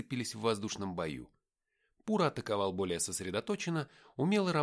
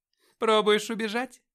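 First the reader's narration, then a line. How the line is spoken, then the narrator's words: Laughing. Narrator (Russian): рассмеялась она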